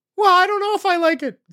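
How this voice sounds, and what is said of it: Voice goes up, high-pitched. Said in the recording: “you went Johnny high voice on me... your voice went up there... See, I went high voice.”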